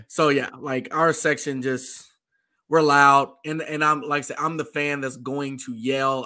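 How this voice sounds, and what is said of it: Hoarse, worn-out voice. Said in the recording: “As you hear, my voice is gone. Like, my voice is gone. ... It's gone.”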